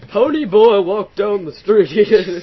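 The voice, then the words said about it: Fake British accent. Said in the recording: “I'll have a fake British accent.”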